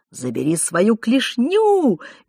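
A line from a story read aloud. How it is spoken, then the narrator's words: Shrieking. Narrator (Russian): визжала Клава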